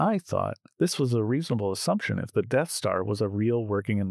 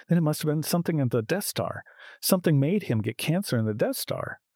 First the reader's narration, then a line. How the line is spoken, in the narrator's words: Monty again exclaimed